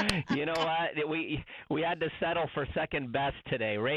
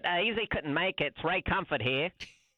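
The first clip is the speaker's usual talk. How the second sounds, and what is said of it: Imitates another person's voice, put-on accent. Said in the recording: “How'd you like that accent”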